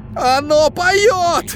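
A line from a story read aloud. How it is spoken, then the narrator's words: Hoarse rasp. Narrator (Russian): прохрипел он в камеру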